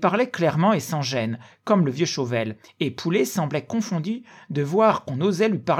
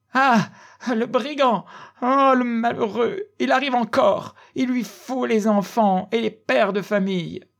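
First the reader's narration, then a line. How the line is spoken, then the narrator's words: Old woman's sobbing cries. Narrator (French): Cette pauvre vieille ses cris partaient comme des sanglots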